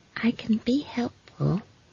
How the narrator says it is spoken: said Esk quietly

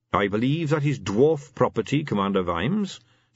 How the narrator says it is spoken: said the king calmly

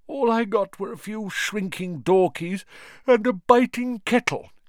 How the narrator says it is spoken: yawned Mr

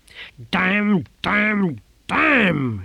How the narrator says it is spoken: shouted Simony

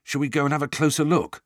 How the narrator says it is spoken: said Ron

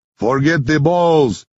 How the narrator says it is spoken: Henri yells

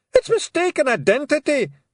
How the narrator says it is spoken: shouted Rob Anybody

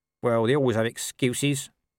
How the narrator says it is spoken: said Nobby sullenly

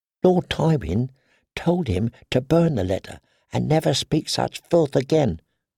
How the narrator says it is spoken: the girl whispered

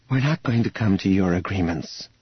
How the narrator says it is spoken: Leia said wearily

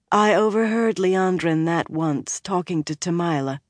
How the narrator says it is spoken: Amiko said wearily

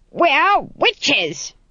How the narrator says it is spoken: screamed Granny

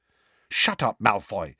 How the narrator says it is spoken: said Hermione sharply

